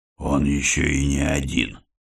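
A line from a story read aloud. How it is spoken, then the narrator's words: Breathed out. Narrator (Russian): выдохнул епископ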